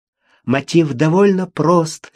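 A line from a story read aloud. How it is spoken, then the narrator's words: Hurried, faltering babble. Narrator (Russian): лепетала она, пытаясь говорить как можно быстрее, что у нее не очень получалось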